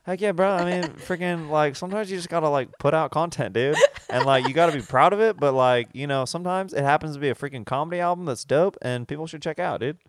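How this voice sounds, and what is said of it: Laid-back drawling cadence, slight twang. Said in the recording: “It's kind of like High Theo Von. Like, it's like not as much of a twang, but it's kind of that cadence.”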